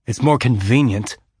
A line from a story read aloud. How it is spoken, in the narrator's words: Holden said more sharply than he'd intended